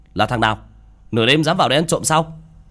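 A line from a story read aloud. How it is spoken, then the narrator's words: Angry shout. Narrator (Vietnamese): miệng quát lên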